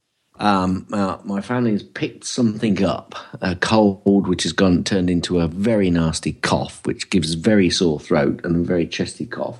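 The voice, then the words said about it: Slightly gruff, hoarse voice. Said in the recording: “you can probably hear my voice is a little gruff”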